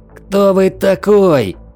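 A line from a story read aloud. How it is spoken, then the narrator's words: Shocked shout. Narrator (Russian): заорал Назир, медленно приходя в себя от шока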